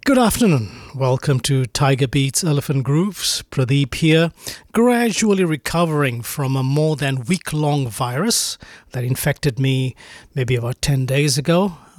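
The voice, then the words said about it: Croaky voice. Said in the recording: “my voice is still a bit croaky, but I'm getting better”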